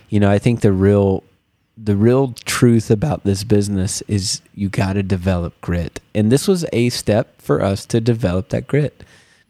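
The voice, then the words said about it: Sick-sounding voice. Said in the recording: “I don't know if you can hear in my voice, also I'm sick.”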